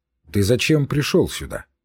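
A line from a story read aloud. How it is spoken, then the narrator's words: Stern, offended question. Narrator (Russian): строго спросил отец, очевидно оскорбленный тем, что я попрекнул его легкомыслием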